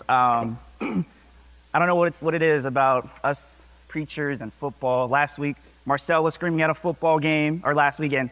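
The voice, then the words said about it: Hoarse, strained voice. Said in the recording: “Sorry about my voice. ... I was screaming at a football game, and my voice is shot right now”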